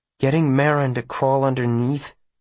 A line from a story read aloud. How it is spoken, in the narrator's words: he says hesitantly